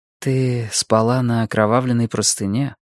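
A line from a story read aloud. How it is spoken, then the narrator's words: Gentle. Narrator (Russian): мягко сказала она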